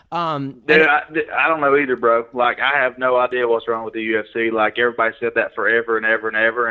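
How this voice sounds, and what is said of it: Southern Tennessee accent. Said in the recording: “being a Southern Tennessee guy with the accent.”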